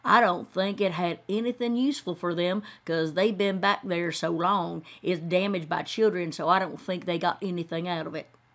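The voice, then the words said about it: Imitating a local woman's accent. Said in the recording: “Let me talk the way she does. ... if I'm butchering your accent.”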